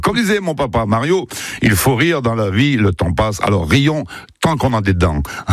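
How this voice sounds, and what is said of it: Put-on accent. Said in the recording (French): “Il avait pas cet accent, mon père, en fait.”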